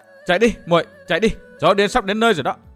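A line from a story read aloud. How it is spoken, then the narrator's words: Raised voice. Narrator (Vietnamese): cô Thanh Tùng cũng cao giọng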